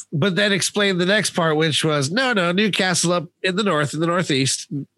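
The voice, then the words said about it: Newcastle (northeast English) accent. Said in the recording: “that was partially your accent though ... it does sound, local”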